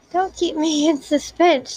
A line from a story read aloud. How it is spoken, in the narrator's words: she said excitedly